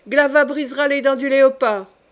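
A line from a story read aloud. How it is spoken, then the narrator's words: Young girl shouting. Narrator (French): cria la jeune fille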